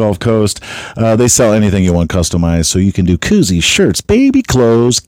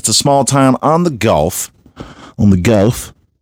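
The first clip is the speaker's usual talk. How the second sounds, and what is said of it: Slipping into Australian accent. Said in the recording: “this fucking Australian accent.”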